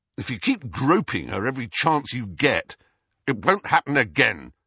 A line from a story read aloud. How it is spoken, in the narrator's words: said Harry harshly